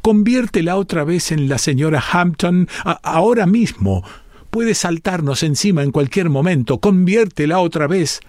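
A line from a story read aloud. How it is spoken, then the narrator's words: Shrill shouting. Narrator (Spanish): le gritó chillonamente a su sobrino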